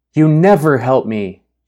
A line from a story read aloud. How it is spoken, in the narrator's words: shouted